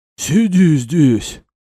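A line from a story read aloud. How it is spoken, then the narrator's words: Wheezy hoarse voice. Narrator (Russian): просипел толстяк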